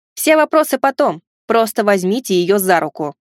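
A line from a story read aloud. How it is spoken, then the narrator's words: Snapping. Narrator (Russian): огрызнулся я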